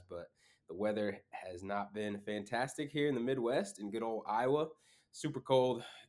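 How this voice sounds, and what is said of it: Congested, stuffed-up voice with sniffles. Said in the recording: “I am feeling a little bit stuffed up... if I sound a little weird or if you hear some sniffles”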